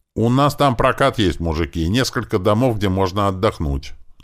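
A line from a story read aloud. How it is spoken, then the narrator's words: Loud shout. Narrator (Russian): громко прокричал Риф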